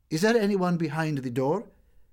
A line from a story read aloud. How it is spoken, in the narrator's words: she made an effort to show courage and said very loudly